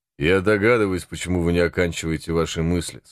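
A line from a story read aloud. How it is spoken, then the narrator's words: Plain. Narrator (Russian): сказал он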